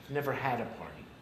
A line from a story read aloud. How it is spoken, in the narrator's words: in a whispered voice with a crack